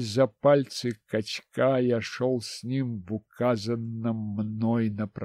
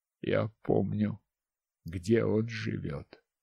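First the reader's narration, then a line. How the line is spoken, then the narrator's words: Calm. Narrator (Russian): спокойно сказал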